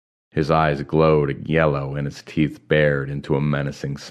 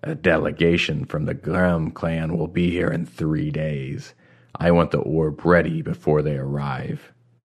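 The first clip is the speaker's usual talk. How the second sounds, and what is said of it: Low voice. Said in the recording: “in a low voice”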